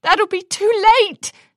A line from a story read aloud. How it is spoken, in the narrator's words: Twilight shouted as she ran out into the hall